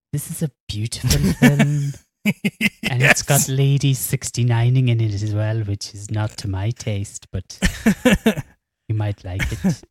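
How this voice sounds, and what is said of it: Imitates another person's voice. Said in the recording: “your Mark Cousins impression”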